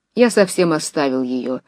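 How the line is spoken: Dry. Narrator (Russian): сухо отвечал Нехлюдов

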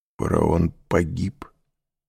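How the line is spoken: Strangled, choked voice. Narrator (Russian): спросил Морель сдавленным голосом

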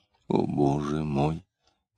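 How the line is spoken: Quiet. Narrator (Russian): тихо сказала Лидия

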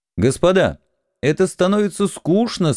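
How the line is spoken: Loud. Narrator (Russian): сказал я им громко

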